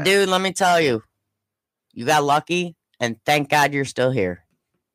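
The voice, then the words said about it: Choked-up, emotional voice. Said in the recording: “I'm getting all choked up over this crap.”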